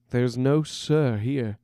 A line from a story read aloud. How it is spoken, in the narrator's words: chuckled Silas